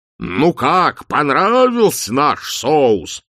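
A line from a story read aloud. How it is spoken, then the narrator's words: Bellowing. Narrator (Russian): взревел арканцлер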